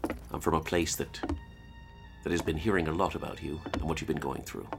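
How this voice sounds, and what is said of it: Put-on Irish accent. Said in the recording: “Are you really Irish? ... No, I'm not. ... But I'll keep this accent up.”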